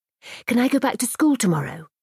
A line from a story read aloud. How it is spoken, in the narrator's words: she asked, eagerly